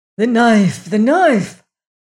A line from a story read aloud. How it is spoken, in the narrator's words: gasped Xavier